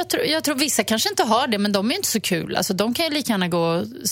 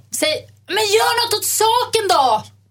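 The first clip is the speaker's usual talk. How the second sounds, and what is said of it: Raised, shouting voice. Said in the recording (Swedish): “Med den rösten, och skrika ... Ja, lite grann.”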